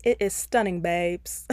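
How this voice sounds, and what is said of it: Poor put-on British accent. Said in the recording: “I'm gonna try my best British accent. ... That was a horrible British accent.”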